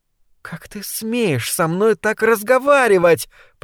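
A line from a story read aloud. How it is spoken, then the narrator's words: Hissed. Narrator (Russian): прошипела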